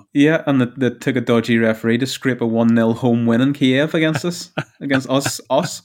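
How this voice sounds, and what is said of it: Northern Irish accent. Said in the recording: “Us is Northern Ireland, just in case you can't tell by the accent.”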